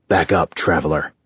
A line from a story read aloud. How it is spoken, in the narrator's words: the king snapped